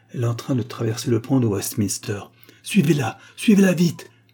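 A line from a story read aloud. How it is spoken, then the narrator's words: Fierce exclamation. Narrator (French): s'écria Agar, sauvagement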